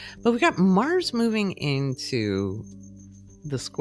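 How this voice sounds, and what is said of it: Usual voice. Nothing is said of it.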